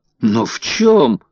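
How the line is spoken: Exclaiming. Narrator (Russian): воскликнул Паспарту

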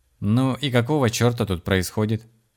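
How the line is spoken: Calm question. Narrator (Russian): спокойно спросил у Нины Рэй Блэк

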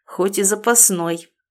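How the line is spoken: Annoyed mutter. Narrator (Russian): пробурчал себе под нос, чувствуя совершенно иррациональную горчинку досады на языке

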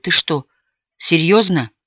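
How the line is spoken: Timid, trembling question. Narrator (Russian): Он побледнел и теперь уже по-настоящему робким и дрожащим голосом переспросил

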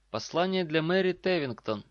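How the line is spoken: Sigh then shout. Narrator (Russian): вздохнул и крикнул

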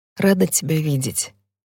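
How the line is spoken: Quiet. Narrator (Russian): тихо говорю я

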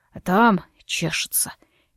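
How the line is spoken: Unhappy embarrassed whisper. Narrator (Russian): несчастным голосом прошептал он и еще сильнее покраснел

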